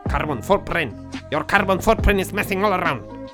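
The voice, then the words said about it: Put-on German-English accent. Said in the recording (Catalan): “No sé per què he posat un accent alemany-anglès.”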